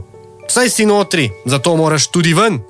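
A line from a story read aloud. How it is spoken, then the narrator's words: Angry. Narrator (Slovenian): je rekel jezno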